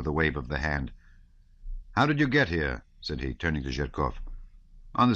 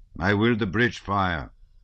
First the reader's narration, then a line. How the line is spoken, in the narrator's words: he said in a solemn tone